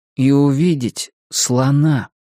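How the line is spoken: Very slow. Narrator (Russian): очень медленно, Том добавил

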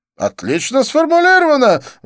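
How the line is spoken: Exclamation. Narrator (Russian): воскликнул Дидье

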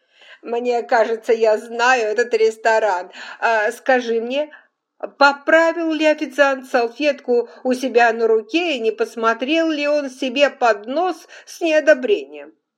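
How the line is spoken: Giggling. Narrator (Russian): Скарлетт хихикнула

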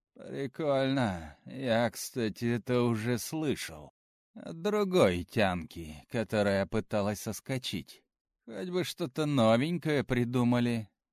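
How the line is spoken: Lazy, smiling. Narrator (Russian): лениво улыбнулся парень

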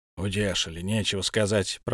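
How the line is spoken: Grumbling. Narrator (Russian): проворчал Торин

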